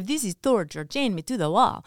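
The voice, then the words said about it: Put-on cartoon character accent, not great. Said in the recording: “an accent ... that's from what is it? The movie, Disney movie with Oliver and Company ... I try to use that same accent ... So you're not super great at accents? ... Not at all.”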